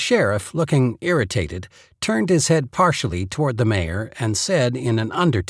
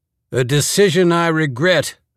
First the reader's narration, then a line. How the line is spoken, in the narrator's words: the man boomed